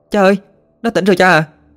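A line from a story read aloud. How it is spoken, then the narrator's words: Excited shout. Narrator (Vietnamese): Ina thấy Tuấn tỉnh dậy thì hét lên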